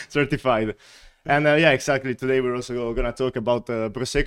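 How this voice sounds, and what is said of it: Italian accent. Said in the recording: “my accent ... I was born and raised in Italy”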